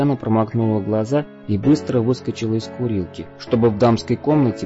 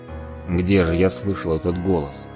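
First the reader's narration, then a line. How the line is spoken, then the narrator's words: Muttered. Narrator (Russian): Пробормотал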